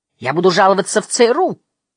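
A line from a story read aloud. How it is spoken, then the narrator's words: Shout after someone. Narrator (Russian): прокричал вслед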